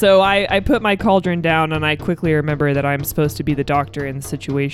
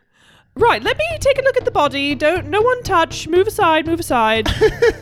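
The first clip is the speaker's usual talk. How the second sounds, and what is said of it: Loud put-on British accent. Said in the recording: “put my British accent back on, and I loudly say”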